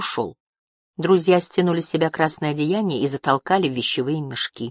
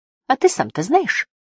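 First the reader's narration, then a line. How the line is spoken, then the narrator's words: Sharp girl's question. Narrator (Russian): резко спросила девочка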